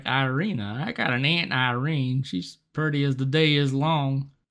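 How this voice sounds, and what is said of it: Put-on country accent. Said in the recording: “He doesn't really have this country accent. I think we just gave it to him.”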